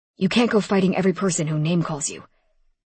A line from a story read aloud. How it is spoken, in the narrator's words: he said in a fatherly tone